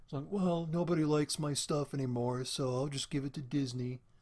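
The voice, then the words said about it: Imitates another person's voice. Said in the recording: “That's my George Lucas impression”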